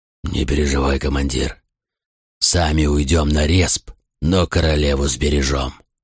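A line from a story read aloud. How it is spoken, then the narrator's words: Growled. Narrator (Russian): рыкнул Тагрон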